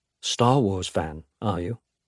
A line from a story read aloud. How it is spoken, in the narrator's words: Henry says, in a low, warm voice Alex has never heard from him before